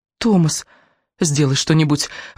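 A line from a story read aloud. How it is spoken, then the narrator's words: Pleading. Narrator (Russian): взмолилась она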